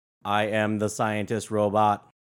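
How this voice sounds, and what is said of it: Deadpan robotic voice. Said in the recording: “my impression of her ... That's pretty much deadpan. ... so very robotic”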